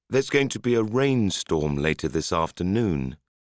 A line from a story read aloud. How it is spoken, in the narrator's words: sadly said